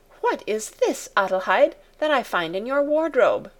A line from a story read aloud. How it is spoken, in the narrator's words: exclaimed